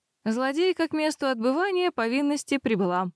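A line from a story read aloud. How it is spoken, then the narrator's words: Cheerful announcement. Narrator (Russian): бодро объявила я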